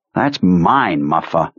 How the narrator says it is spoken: Ted Trzewski snarled

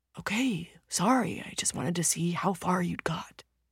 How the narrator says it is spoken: the older man whispers, embarrassed now, unable to hide his concern

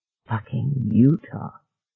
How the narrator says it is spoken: he said softly

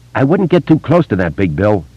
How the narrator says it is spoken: Richie said sharply

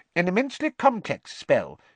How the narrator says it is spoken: he said squeakily

